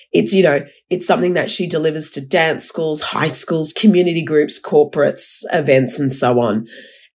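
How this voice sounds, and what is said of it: Hoarse, nearly lost voice. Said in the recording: “my voice is totally gone. I've been quite unwell”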